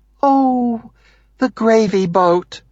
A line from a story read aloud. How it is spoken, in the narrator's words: she exclaims